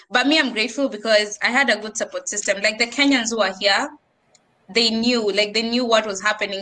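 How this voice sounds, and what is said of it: Kenyan accent. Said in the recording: “you have the accent”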